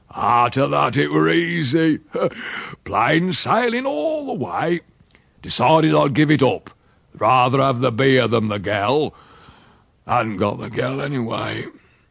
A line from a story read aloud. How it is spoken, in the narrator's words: laughed and said